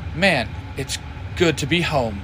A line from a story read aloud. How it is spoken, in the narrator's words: Jay says